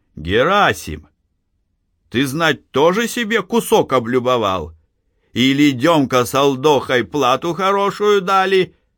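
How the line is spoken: Shout. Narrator (Russian): Калистрат Зотов крикнул

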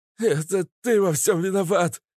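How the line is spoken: Old man, choking sobs. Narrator (Russian): захлебываясь в слезах, выдохнул старик

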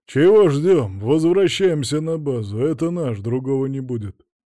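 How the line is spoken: Grumbling bodybuilder. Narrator (Russian): пробурчал культурист

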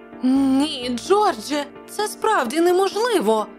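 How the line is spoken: Exclaimed. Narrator (Ukrainian): вигукнула пані Челленджер

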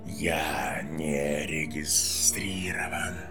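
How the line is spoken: Hissing snake. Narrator (Russian): прошипела змея

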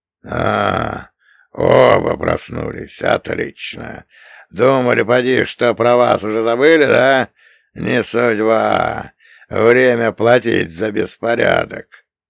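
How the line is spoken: Nasty-voiced reply. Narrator (Russian): мерзким голосом ответил Патрику Кевин

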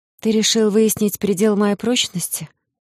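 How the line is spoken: Tired exhale. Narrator (Russian): устало выдохнула я

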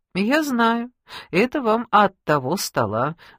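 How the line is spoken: Calm reply. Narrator (Russian): спокойно ответил официант

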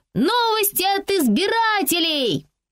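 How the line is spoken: Shouting with children. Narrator (Russian): Фрэнси кричала вместе с детьми

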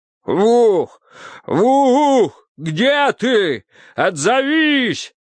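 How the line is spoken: Frantic male screaming. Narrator (Russian): истошно кричал он

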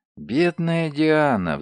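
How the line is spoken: Sighing. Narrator (Russian): вздохнула она

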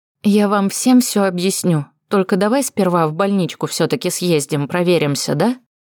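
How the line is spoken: Quiet suggestion. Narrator (Russian): Предположила тихонько

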